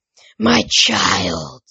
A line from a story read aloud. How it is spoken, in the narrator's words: she rasped in a much deeper voice